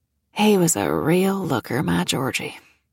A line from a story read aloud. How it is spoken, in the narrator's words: Ethel said with a sigh